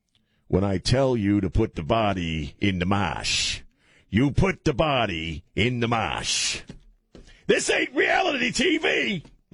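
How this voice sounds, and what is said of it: Imitated exaggerated Boston accent. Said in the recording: “watching Nicholson play a guy from Boston is hilarious ... That's how he does a Boston accent.”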